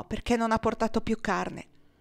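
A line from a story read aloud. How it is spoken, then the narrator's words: Exclaiming. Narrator (Italian): esclamò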